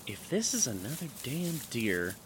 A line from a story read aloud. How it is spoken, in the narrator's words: I muttered to myself